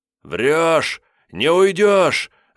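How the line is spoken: Sudden deafening yell. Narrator (Russian): вдруг заорал он оглушающе громко, как бы тем самым подстегивая себя

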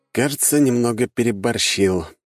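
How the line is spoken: Sigh. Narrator (Russian): вздохнул я

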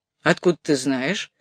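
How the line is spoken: Suspicious question. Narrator (Russian): подозрительным тоном спросил инспектор

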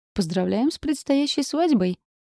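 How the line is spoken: Smirking voice from crowd. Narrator (Russian): хмыкнул кто-то из толпы

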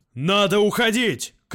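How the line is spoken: Shout. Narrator (Russian): крикнул Яровит

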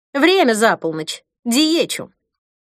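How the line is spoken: Less cold voice. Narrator (Russian): Голос Ирины звучал уже не так холодно

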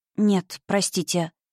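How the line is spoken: Quiet reply. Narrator (Russian): тихо ответила

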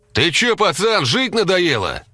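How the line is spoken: Male yelling. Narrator (Russian): заорал он

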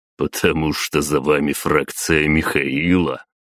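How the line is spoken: Wry snort. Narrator (Russian): хмыкнул Батуми

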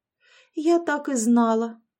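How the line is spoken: Moaning. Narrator (Russian): простонала Яшка

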